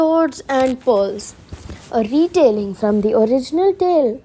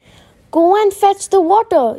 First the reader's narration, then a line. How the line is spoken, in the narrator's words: yelled the widow